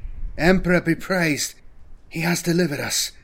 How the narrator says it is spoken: Velus breathed

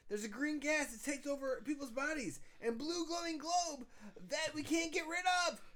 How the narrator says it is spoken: yelled Chris

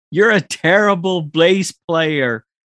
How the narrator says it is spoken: Joe shouts to her

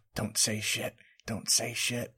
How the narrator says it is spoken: Violet is quietly whispering to herself

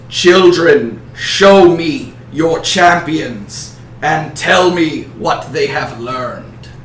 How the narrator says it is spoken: He says in a booming voice

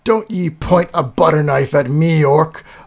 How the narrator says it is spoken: bellowed Garthur

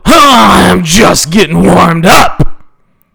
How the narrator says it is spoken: Gunsmoke bellowed

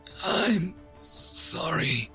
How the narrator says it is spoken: I murmured softly

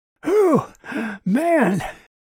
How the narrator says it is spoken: Red said between deep, wheezing breaths

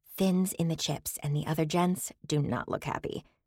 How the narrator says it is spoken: Scylla whispered

